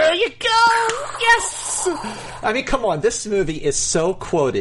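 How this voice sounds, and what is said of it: Usual voice. Nothing is said of it.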